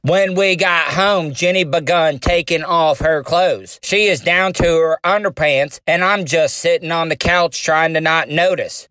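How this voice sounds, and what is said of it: Forrest Gump character impression. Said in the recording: “my best Forrest Gump impersonation that I can. It's not going to be great, but I'm going to try.”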